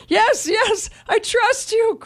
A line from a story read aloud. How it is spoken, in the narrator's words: cried the man